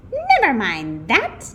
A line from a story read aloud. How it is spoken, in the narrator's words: snapped Miss Swamp